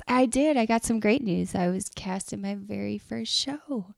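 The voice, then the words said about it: Imitates another person's voice. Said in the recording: “I'll tell you all about it using your voice ... that felt like a really good impression”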